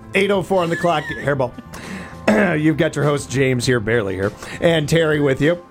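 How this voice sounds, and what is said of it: Hoarse, gravelly, choked-up voice. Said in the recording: “You sound all choked up over there. ... I'm a little bit hoarse. ... that gravelly voice”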